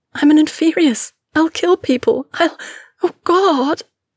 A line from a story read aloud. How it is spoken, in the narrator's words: She ... sobbed